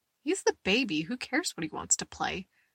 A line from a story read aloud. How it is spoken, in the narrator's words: Goody says, laughing